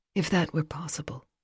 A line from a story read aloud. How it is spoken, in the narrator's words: Silver said with no hint of anger, her tone gentle in a way he'd never heard from her